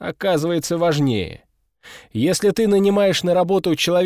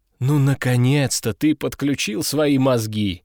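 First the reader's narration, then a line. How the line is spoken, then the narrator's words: Laughing. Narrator (Russian): хохотнул Овод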